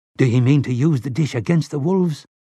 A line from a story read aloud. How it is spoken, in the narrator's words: Bucky Javier asked in a queerly breathless voice